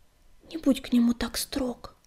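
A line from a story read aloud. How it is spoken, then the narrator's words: Whispering sandstorm. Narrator (Russian): прошептала песчаная буря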